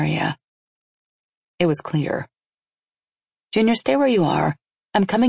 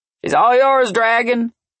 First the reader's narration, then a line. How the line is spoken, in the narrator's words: Junior called out as he walked away